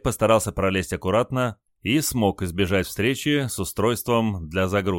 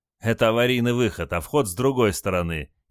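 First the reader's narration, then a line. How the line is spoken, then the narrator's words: Snide reply. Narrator (Russian): ехидно ответил моряк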